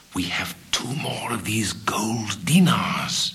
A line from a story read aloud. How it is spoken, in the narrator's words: Morgiana dropped her voice to a whisper